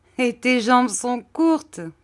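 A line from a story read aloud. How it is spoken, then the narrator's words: Laughing. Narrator (French): dit-il en riant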